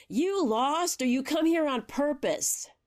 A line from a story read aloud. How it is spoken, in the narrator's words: From the front porch, she hollered